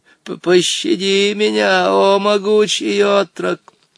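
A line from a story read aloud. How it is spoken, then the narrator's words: Pitiful exclamation. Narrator (Russian): воскликнул он жалостливым голосом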